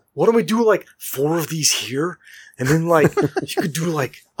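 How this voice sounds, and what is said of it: Imitates another person's voice. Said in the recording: “can you do an impression of him when you say that?”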